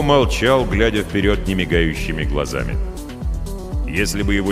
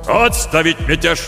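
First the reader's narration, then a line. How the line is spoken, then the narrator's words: Barked command. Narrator (Russian): рявкнул адмирал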